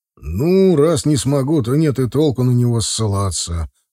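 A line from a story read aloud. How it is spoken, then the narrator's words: Sighing. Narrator (Russian): вздохнул ректор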